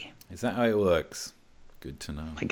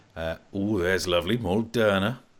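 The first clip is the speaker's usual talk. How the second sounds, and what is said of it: Put-on Welsh accent. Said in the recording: “Can you say it with a Welsh accent?”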